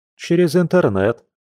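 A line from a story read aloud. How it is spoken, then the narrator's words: Smirking grunt. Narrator (Russian): хмыкнул его близнец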